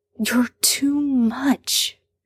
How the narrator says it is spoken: Sam hisses

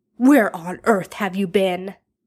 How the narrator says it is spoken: Arthur snaps before the door has even closed behind him

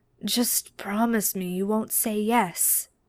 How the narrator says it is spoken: Castiel replied weakly

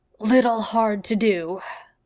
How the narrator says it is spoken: Jeff says with a wheeze

